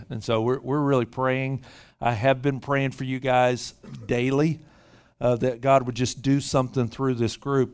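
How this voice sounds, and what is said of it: Memphis, Tennessee accent. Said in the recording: “You may hear a little bit of accent... It's pretty obvious. I'm not from the Bay Area. Grew up in Memphis, Tennessee”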